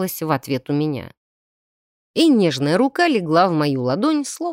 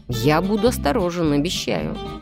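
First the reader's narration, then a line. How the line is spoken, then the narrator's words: Changed voice. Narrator (Russian): совсем другим голосом сказал Артем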